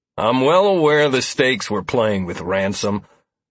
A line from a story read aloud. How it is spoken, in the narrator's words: Lazarus replied harshly